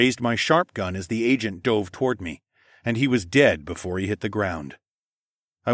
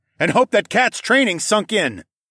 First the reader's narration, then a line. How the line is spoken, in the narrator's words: I yelled